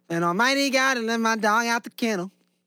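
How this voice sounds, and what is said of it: Imitates another person's voice. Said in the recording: “Good little impression there.”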